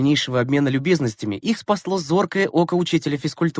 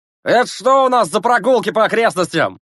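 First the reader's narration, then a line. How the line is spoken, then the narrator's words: Shouting. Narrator (Russian): закричал он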